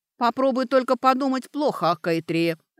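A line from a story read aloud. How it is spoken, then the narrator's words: Barked. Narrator (Russian): рявкнула Сашка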